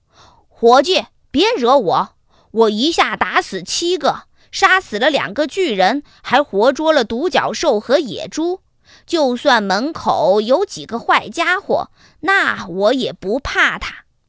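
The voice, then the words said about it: Loud, booming character voice. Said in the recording (Chinese): “小裁缝用洪亮的声音说”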